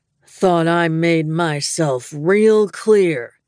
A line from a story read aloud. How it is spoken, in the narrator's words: he growled